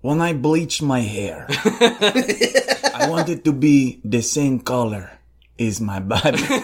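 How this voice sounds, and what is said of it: Gravelly imitation of an actor's accent. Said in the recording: “You gotta capture the graveliness... That's not a good accent.”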